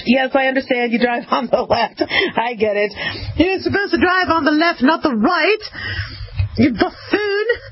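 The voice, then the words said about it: Put-on British accent. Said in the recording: “that's a damn good impression. That's a good... Look, I have a lot of British friends”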